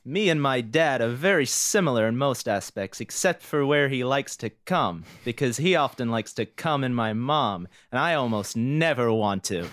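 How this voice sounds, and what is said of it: John Mulaney impression. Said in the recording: “do I want to put on a voice? I've been doing a lot of impressions ... Was like that John Mulaney? That was really good.”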